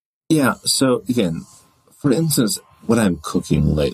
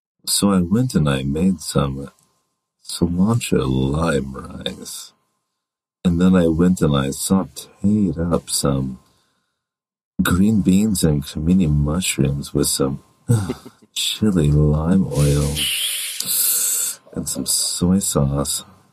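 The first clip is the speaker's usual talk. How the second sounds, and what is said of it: Deeper, sexy voice. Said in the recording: “in a deeper, sexy voice”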